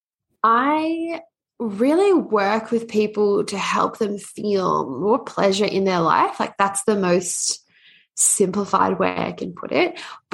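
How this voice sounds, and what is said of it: Hybrid Australian-Canadian accent. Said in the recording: “I love your accent. ... I'm Australian Canadian, so it's a bit of a hybrid one.”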